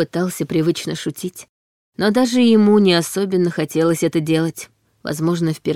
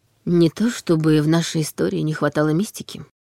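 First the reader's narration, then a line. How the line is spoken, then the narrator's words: Quiet remark. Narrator (Russian): тихо заметила Анна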